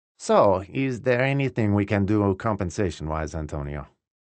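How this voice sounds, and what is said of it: Thick Indian accent. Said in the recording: “in his thick Indian accent”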